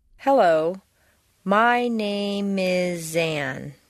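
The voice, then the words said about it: Exaggerated, drawn-out linked words. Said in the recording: “I'm going to exaggerate the linking of the words, drawing it out much longer than would be natural.”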